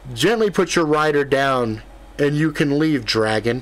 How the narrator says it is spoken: Ethan yelled out

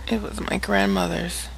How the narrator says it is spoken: Kaylin said softly

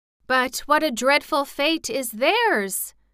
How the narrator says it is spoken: exclaimed Ozma earnestly

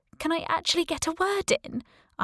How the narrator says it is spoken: I asked, tears in my eyes, shakily

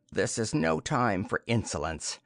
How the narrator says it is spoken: said the sorcerer coldly

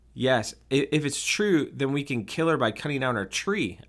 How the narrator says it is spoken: I exclaimed joyfully

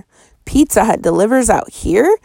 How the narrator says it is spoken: gasped

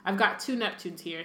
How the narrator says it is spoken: said Harry

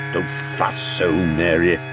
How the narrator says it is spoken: grumbled Mr

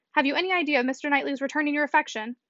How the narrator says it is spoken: Emma in consternation, and hastily said

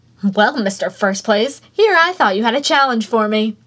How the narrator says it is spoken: she chirped

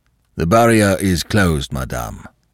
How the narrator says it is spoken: she was curtly informed

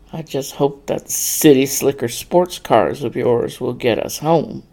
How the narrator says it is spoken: Brad muttered

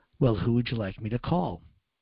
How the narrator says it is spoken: she looked at the teacher very calmly, and she said

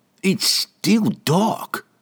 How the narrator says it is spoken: the dwarf grumbled

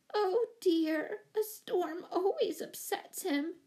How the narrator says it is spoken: moaned Miss Giddings

